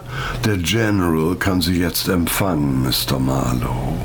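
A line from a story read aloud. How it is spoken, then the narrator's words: Expressionless butler voice. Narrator (German): Der Butler sagte mit ausdrucksloser Stimme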